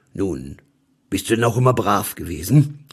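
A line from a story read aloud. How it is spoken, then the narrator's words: Stern question. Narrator (German): fragte er und schaute mich streng an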